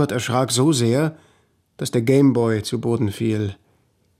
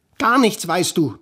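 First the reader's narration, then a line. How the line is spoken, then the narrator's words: Sudden roar. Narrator (German): brüllte Lena plötzlich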